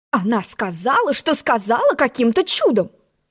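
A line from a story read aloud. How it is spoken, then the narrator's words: Indignant. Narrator (Russian): возмущенно пожала плечами черная королева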